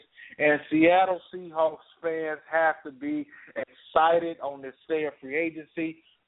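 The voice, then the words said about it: Excited, energetic voice. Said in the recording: “We're excited, as you can tell in my voice.”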